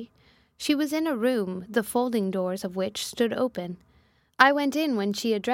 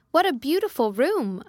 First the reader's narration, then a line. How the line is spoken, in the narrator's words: I exclaimed, for I had never before seen any half so imposing